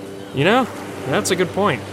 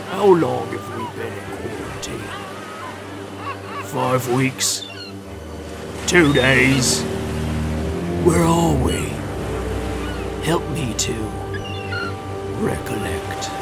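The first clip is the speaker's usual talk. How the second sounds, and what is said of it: Attempted East London accent impression. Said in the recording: “your Jason Statham impression again ... I don't have a good East London accent”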